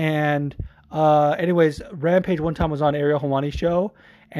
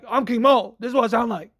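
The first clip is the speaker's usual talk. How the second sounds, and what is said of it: King Mo impression. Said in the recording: “good King Mo impersonation”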